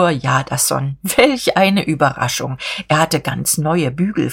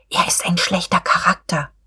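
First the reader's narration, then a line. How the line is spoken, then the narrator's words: Whispering. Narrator (German): Frau von Wulkow wisperte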